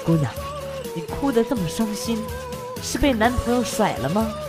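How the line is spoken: Unusually gentle voice. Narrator (Chinese): 这哥们儿用异常温柔的声音说

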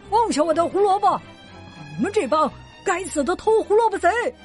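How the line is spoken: Yelling. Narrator (Chinese): 弗瑞德大叫着

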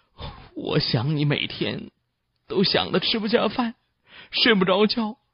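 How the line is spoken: Choked up. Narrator (Chinese): 李天听得哽咽着说了

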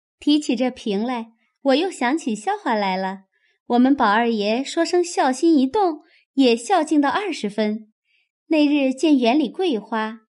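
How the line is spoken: Laughing. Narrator (Chinese): 秋文笑道

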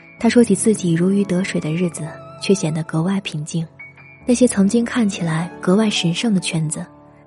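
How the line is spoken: Calm, faint smile. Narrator (Chinese): 王爷淡淡一笑，接着说

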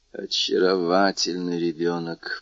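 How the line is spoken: Whispering. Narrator (Russian): прошептал Монте-Кристо

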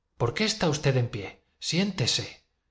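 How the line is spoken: Sweet caressing voice. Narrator (Spanish): dijo con voz dulce y acariciadora

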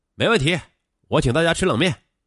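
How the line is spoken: Loud and cheerful. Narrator (Chinese): 大声说

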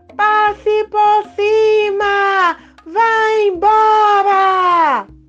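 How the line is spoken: Shout. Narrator (Portuguese): gritou para a nuvem

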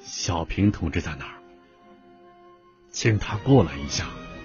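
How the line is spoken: Low hoarse question. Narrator (Chinese): 周恩来以低沉沙哑的声音问道

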